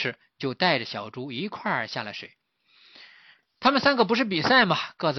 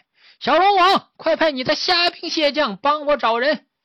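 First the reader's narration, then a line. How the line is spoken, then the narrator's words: Quiet far-carrying voice. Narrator (Chinese): 说话的声音并不是很大 可是传得很远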